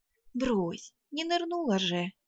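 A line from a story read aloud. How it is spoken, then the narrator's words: Uncertain, dismissive. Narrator (Russian): неуверенно отмахнулась я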